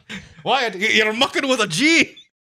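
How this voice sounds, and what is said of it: Weak Scottish impression sounding Irish. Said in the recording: “I would have loved his fucking Scottish accent ... That doesn't even sound like Sean Connery. ... No, you sound kind of Irish. ... Impressions are not my forte.”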